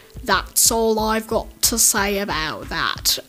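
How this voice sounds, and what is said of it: British-accented Forrest Gump impression. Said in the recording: “that was a British Forrest Gump. I did a British Forrest Gump ... British Forrest Gump accent”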